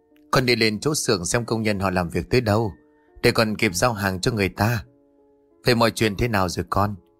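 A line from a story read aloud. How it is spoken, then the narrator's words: Sighing reply. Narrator (Vietnamese): thở dài đáp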